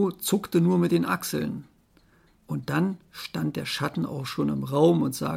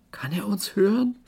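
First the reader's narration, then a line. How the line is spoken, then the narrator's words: Fearful question. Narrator (German): fragte Finn ängstlich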